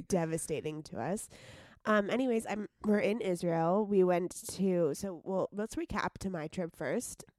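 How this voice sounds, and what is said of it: Hoarse, sick-sounding voice. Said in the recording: “She sounds like a dying horse. ... I am sick.”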